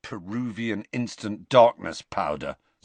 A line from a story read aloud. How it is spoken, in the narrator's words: said Ron bitterly